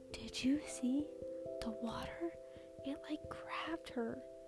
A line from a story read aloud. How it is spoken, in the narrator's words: Some of the kids were whispering